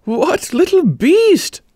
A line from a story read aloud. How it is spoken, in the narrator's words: asked Amanda, suppressing a desire to laugh